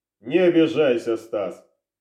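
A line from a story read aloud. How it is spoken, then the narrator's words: Snorting interruption. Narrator (Russian): хмыкнув, перебил его сыщик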